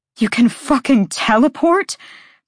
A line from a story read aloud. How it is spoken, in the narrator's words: Bryce gasped out